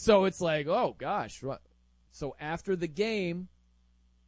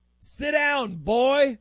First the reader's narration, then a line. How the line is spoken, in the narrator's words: he yells